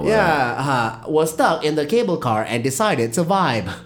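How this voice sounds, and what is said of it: TikTok robot lady text-to-speech voice. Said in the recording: “That TikTok robot lady voice. ... You do sound like it. You're doing a good impression of her.”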